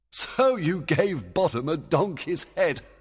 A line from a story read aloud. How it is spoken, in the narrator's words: Oberon laughed